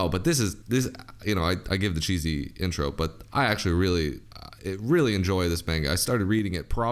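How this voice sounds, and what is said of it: Usual voice. Nothing is said of it.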